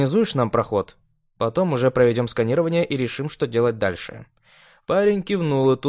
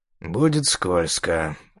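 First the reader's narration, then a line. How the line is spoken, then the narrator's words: Muttered under breath. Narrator (Russian): пробормотал себе под нос он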